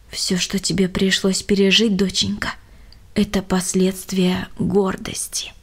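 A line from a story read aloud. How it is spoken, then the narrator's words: Plain. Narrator (Russian): сказала мама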